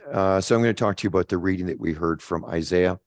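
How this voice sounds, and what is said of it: Dry, rough voice. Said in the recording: “What is it? Dry out or something? ... Excuse my voice.”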